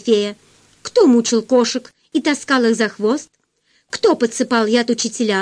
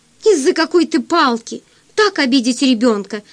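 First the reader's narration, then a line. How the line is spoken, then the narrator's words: Exclaiming. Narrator (Russian): воскликнула Марьяна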